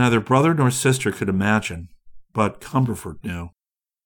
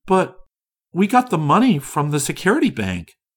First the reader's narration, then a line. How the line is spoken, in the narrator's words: exclaimed Orissa